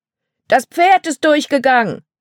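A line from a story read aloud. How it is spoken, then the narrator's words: Man shouting. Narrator (German): rief ein Mann, während er versuchte, sich dem wilden Pferd in den Weg zu stellen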